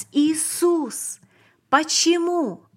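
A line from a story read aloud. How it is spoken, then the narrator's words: Shouting. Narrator (Russian): Я крикнул еще раз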